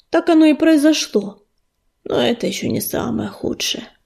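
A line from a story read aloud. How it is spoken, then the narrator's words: Weary reply. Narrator (Russian): устало ответил Огнезвезд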